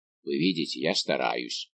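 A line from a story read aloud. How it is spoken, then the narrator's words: Grumbling. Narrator (Russian): проворчал Портос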